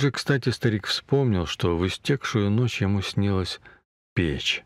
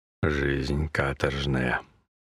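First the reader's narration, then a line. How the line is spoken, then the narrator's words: Grumble with full mouth. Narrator (Russian): проворчал, перекатывая языком во рту крохи черного хлеба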